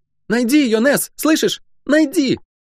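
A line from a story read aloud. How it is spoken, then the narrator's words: Shout. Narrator (Russian): крикнув мне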